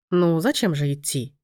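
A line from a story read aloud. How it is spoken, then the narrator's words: Calm reply. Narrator (Russian): спокойно ответил Лоренцо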